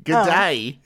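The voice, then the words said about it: Nasal put-on Australian accent. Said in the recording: “This is me Australian accent. ... a little bit more nasal, mate. ... you're talking through your nose a bunch there ... if I want to sound Australian.”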